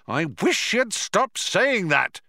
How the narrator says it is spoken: shouted Ford

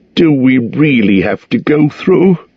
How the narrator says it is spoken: groaned the hobbit

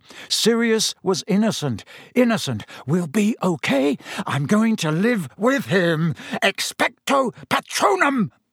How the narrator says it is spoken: gasped

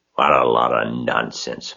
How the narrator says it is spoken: muttered the rat

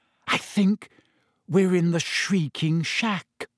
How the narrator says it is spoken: whispered

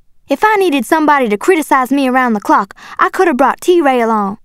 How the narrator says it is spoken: I shouted

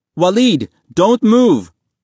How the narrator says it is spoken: Mahmoud cried

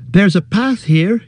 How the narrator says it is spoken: he cried

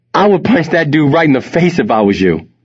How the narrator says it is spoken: he said in between laughs

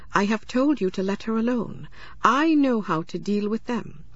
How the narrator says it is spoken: said Okagbue

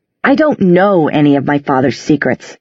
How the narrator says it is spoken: said less sharply

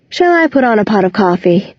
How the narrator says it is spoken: Claire sighs and asks

